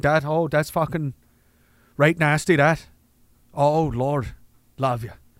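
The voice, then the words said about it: Put-on Newfoundland accent. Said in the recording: “do your best Newfoundland accent. ... that's a Newfoundland thing.”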